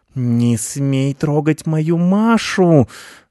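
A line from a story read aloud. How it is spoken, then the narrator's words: Hissing cat. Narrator (Russian): зашипела кошка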